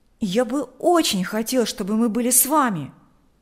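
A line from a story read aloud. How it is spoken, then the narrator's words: Exclaimed. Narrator (Russian): воскликнул Миша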